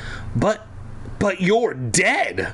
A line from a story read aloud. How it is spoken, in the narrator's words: I blurted out